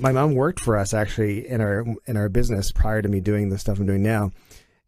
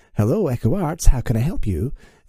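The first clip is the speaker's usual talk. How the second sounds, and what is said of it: Proper transatlantic phone voice. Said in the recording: “she has a phone voice ... she's very like sort of properly pronounced ... she puts on this weird sort of transatlantic, you know, accent.”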